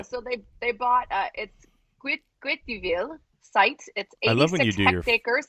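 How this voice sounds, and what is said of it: Put-on French accent. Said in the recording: “I love when you do your French accent ... Terrible.”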